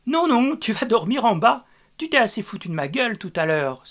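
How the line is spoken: Laughing exclamation. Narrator (French): s'exclama-t-elle en riant

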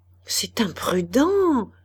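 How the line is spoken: Old woman murmuring. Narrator (French): murmura la vieille dame

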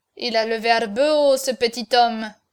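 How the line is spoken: Grumbling. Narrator (French): grommela Cocardas

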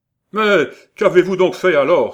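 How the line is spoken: Impatient exclamation. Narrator (French): s'écria le geôlier, impatienté

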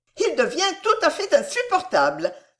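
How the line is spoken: Exclaiming. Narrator (French): s'écria Milady

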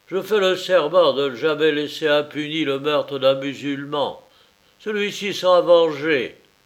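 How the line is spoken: Caliph exclaiming. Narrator (French): s'écria le calife

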